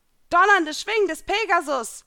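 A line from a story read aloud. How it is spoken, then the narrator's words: Shouting out. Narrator (German): schrie hinaus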